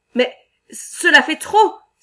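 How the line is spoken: Exclaimed. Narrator (French): s'écria Ole Swenson

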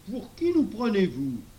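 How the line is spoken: Professor asking indignantly. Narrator (French): demanda le professeur d'un ton indigné

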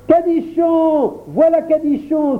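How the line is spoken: Children exclaiming excitedly. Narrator (French): s'écrièrent tous les enfants quand ils m'aperçurent

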